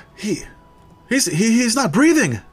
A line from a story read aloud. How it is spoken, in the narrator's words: one yells out